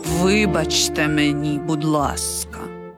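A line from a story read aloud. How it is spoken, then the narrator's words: Quiet. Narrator (Ukrainian): тихо звався Сальєрі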